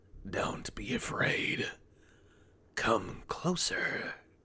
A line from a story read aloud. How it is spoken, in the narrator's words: it hissed, almost inaudibly